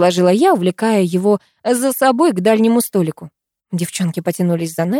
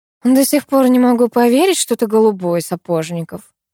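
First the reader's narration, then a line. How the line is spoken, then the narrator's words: Annoyed sigh. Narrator (Russian): с досадой вздохнула Катя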